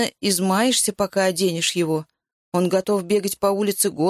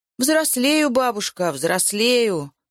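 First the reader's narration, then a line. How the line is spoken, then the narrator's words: Mock sigh. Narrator (Russian): сказал я, притворно вздохнув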